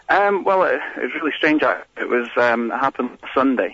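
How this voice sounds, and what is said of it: Scottish accent. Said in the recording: “got a Scottish accent.”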